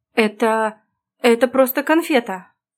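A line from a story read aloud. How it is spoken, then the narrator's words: Flustered babbling. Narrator (Russian): залепетала я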